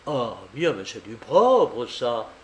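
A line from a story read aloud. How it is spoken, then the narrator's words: Exclaiming. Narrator (French): s'écria André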